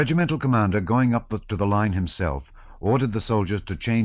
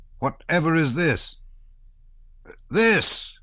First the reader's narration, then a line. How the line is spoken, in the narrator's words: he shouted